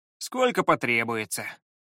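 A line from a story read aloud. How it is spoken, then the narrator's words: Sighing. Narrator (Russian): вздохнул Пит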